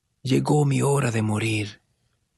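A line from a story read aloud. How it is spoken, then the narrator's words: Weak voice. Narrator (Spanish): dijo débilmente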